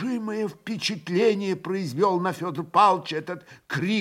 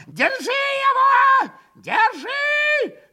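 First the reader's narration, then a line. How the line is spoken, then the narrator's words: Yell. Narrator (Russian): Завопил он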